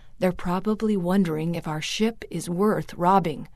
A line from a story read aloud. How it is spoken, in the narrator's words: her father whispered